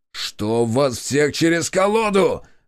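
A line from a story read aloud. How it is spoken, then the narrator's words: Harsh bark. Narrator (Russian): рявкнул Борис на стрелков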